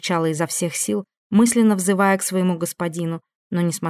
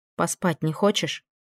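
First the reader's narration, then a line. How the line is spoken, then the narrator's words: Quiet question. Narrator (Russian): тихо спросила она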